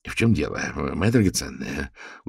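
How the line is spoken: Soothing question. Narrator (Russian): успокаивающим тоном спросил Реджинальд

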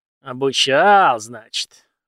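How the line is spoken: Calmed, thoughtful drawl. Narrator (Russian): резко успокоившись, задумчиво протянул мужчина

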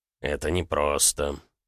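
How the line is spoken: Sighing. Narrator (Russian): вздохнул индеец

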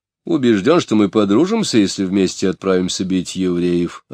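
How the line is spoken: Plain reply. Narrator (Russian): ответил Котов

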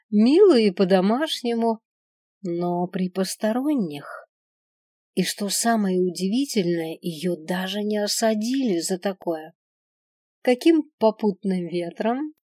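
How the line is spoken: Asked with cloying sweetness. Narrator (Russian): Приторно-ласково поинтересовалась она

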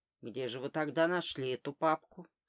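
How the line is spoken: Plain. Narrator (Russian): спросил он

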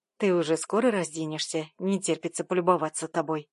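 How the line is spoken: Smirking snort. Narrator (Russian): хмыкнул Миша

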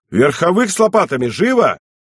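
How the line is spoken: Alarmed shout. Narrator (Russian): Встревожился и князь, и, обратившись к Каштеляну Сахачевскому, крикнул

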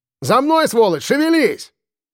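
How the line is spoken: Distant barking. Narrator (Russian): рявкнул тот издалека

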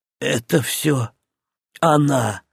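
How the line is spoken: Whispered. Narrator (Russian): прошептал Зильберт

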